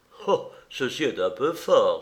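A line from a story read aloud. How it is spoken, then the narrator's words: Exclaimed. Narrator (French): s'écria Ernest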